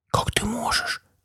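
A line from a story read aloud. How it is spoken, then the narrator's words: Tragic whisper. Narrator (Russian): трагически прошептала Адриана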